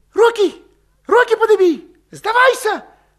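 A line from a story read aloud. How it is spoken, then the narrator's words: Hoarse shout. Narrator (Russian): хрипло крикнул Валет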